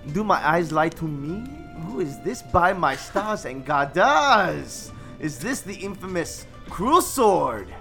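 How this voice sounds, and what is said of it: Put-on character accent. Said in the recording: “That man with the very natural accent”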